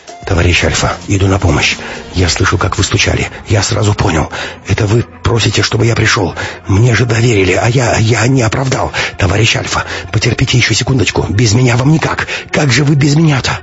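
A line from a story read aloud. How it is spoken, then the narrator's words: Muttering faster and faster. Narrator (Russian): Максим бормотал все быстрее и быстрее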